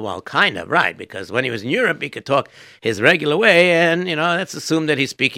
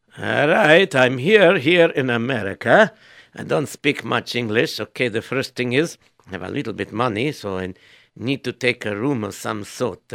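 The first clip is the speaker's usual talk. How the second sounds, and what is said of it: Immigrant broken-English accent. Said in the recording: “he has to speak with a broken English because he really doesn't speak English ... I'll just give him an accent ... give him whatever accent you want”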